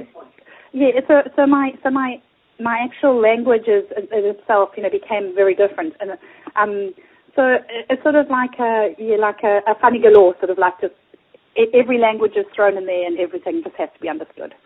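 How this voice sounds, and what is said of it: Mixed London, Australian, South African accent. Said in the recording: “you've got an accent that is so beautifully mixed, and it's a London accent, it's an Australian Queensland accent, and it's a South African Zimbabwean accent ... I sound different to the other Australians”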